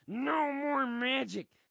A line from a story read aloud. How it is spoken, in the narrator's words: his throat rasps without its usual gravy lube